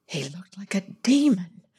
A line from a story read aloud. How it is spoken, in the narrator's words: she breathed in her ear